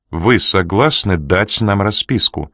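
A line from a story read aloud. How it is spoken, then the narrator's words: Calm, unruffled girl. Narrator (Russian): повторила девушка невозмутимым тоном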